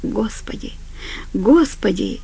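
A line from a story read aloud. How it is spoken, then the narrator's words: Quiet. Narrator (Russian): тихо произнес Глен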